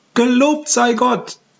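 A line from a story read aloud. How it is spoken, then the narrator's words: Calls out, midwife. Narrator (German): ruft die Hebamme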